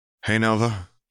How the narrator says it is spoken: he said in a shaky voice

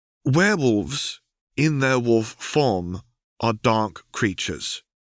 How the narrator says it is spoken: she said slowly, as if to an idiot

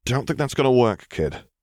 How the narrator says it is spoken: Thier said with a sigh

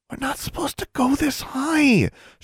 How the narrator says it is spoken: she whispered

